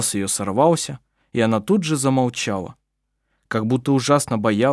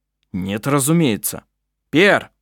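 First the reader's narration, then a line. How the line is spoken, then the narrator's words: Shouted. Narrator (Russian): он крикнул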